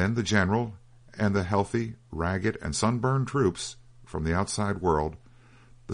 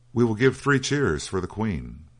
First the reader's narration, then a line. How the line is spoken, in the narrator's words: cried